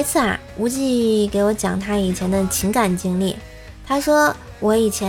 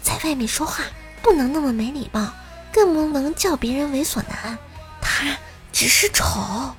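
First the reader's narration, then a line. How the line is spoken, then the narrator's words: Quiet voice. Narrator (Chinese): 小声的对小萝莉说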